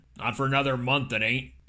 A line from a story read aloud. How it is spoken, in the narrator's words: Cheney barked back